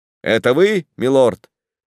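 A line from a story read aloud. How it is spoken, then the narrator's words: Shout. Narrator (Russian): крикнул сэр Даниэль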